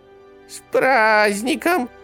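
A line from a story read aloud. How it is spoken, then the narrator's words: Thin shrill inhuman falsetto. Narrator (Russian): сказал он тонким визгливым фальцетом, едва вообще похожим на человеческий голос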